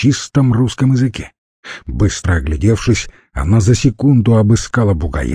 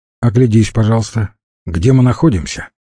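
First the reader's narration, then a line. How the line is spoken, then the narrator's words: Stern. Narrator (Russian): строго сказала Света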